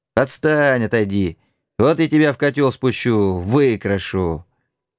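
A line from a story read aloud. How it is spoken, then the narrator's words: Laughing shout. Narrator (Russian): смеялся тихонько, кричал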